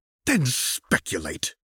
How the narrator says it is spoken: hissed through her teeth

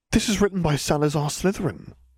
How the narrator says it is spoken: Harry gasped

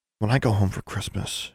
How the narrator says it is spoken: she said softly

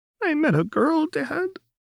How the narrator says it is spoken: Jinx sobbed

